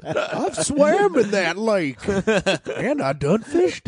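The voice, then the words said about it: Put-on small-town Indiana accent. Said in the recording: “an offensive accent ... I'm doing a Bloomfield accent”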